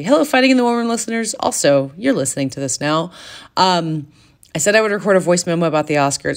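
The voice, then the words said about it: Hoarse, tired voice. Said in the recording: “I am hoarse because I got like four hours of sleep”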